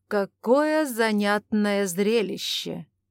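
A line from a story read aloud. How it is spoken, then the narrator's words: Sarcastic remark. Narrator (Russian): язвительно заметил Ивар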